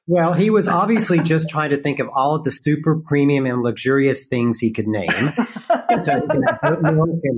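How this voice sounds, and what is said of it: Slight Southern US accent. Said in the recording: “I hear a little bit of a Southern accent there ... I grew up in North Carolina ... thank you for picking up my accent”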